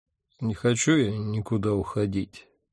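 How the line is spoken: Sleepy mumble. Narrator (Russian): сонно пробормотал я

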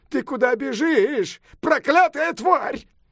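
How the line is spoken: Shouting. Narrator (Russian): он крикнул

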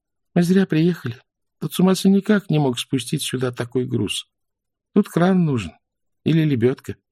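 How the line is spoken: Gloomy. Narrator (Russian): Уныло произнесла

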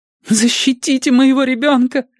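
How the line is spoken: Pleading ghostly woman. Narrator (Russian): взмолился призрак

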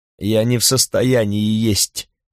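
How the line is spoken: Moaning. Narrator (Russian): простонала Миретта

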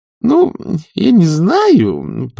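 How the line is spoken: Joyful faltering babble. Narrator (Russian): пролепетала Маград, а сердце ее распевало ликующую песню

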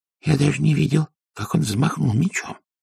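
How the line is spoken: Whispered. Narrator (Russian): прошептал шесть Блак Ветер

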